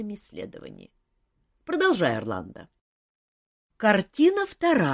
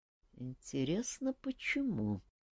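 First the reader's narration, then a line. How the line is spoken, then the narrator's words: King's mutter. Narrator (Russian): пробормотал король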